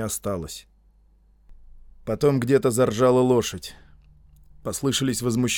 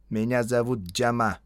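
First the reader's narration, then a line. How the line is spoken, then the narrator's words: Plain, in English. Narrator (Russian): сказал индиец по-английски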